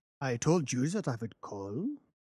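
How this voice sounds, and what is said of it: Deep harsh voice, German accent. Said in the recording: “with a deep, harsh voice and a strongly marked German accent”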